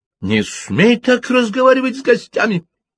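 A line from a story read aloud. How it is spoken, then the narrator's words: Sudden shriek. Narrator (Russian): внезапно взвизгнула Джейн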